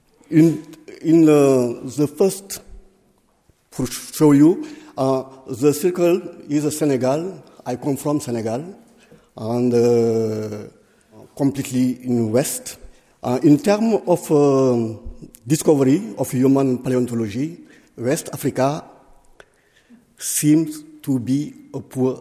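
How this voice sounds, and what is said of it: Non-native accented English. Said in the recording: “My English is not very good ... if I have a bad accent”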